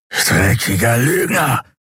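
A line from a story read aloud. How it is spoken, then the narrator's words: Hissed. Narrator (German): fauchte er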